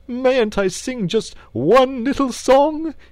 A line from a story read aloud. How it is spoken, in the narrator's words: he pleaded piteously